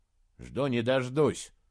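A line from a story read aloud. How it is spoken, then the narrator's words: Gloomy. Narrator (Russian): мрачно ответил Саймон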